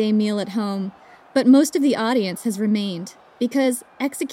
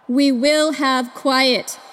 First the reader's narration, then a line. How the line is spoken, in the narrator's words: comes a booming voice